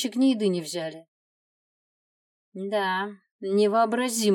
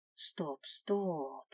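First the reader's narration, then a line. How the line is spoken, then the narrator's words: Gentle interruption. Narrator (Russian): мягко остановил ее Тарас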